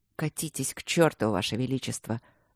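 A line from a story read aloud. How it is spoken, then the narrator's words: Angry muttering. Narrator (Russian): зло пробормотал Люк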